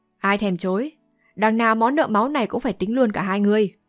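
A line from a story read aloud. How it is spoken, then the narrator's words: Scoffing sneer. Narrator (Vietnamese): Âu Dương Thu cười khẩy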